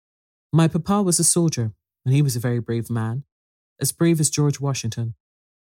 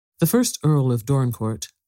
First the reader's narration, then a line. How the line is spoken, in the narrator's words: said Mr